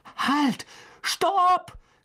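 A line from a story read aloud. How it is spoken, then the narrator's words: Called out. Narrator (German): rief er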